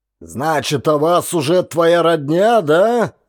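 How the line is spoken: Mocking, through gritted teeth. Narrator (Russian): С издевкой процедил сквозь зубы

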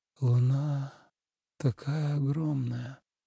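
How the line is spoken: Mumbling. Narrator (Russian): бормотал Тобиас

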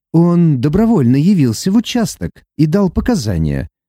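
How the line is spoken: Calm speech. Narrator (Russian): спокойно произнес

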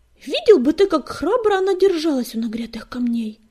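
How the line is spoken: Loud exclamation. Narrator (Russian): громко воскликнул Белохвост

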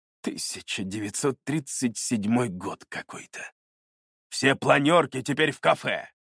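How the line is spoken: Growl. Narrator (Russian): Рыкнул он

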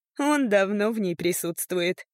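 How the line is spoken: Laughing. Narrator (Russian): рассмеялась

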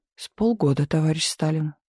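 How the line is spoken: Quiet answer. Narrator (Russian): негромко отвечал Берия

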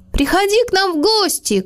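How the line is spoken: Shout after someone. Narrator (Russian): крикнул Мац ему вслед

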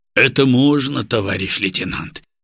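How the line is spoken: Sedate deep bass, older man. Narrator (Russian): степенно пробасил в прокуренные усы тот, что постарше, по документам значившийся старшиной Головко

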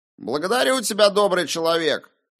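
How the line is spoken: Shout. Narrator (Russian): крикнул Уильям

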